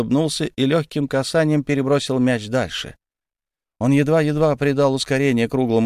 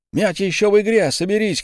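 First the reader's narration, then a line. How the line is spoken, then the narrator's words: Shouting. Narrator (Russian): крикнул Илья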